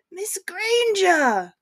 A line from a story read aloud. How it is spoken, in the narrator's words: called out